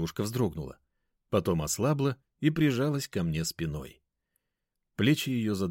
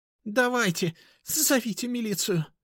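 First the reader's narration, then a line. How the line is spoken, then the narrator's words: Sobbing. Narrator (Russian): Даша всхлипнула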